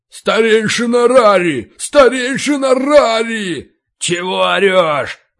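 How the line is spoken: Roaring. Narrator (Russian): Ори Кулак проревел

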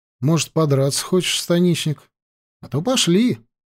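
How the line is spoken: Calm, dull tone. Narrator (Russian): спокойно, тусклым тоном предложил ему Лёшка

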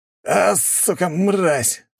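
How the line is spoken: Hissing. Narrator (Russian): зашипел один из моих гвардейцев

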